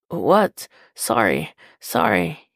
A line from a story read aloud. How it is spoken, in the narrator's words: he gasps